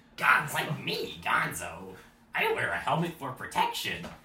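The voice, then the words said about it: Cartoonish Muppet character voice. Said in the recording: “my Gonzo voice”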